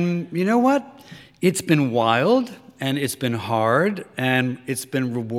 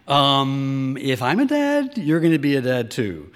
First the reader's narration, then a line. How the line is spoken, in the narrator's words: he said, as kindly as possible